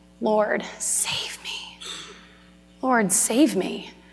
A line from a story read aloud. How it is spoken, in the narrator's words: Peter cries out